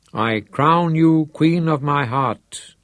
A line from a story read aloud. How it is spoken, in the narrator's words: he intoned